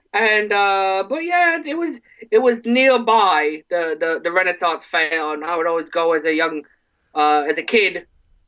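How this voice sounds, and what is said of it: Michigan regional accent. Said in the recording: “as you can tell by my my my dialect, uh, I'm originally from Ortonville, Michigan ... That that's how that's how we sound.”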